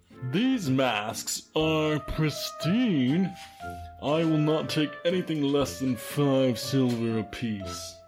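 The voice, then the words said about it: Deliberately awful character voice. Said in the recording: “use your ghastly voice ... do a really awful voice.”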